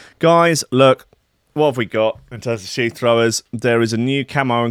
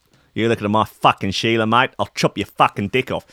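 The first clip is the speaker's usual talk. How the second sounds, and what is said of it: Weird put-on Australian accent. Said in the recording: “odd Australian geezers like this fella ... Weird accent. Very weird accent.”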